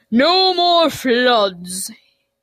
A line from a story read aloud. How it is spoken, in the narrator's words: his voice boomed from up above